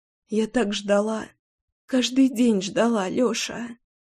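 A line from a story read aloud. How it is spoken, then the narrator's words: Tearful whisper. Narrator (Russian): шептала она сквозь слезы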